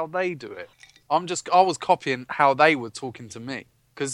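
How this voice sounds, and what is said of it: Usual voice. Nothing is said of it.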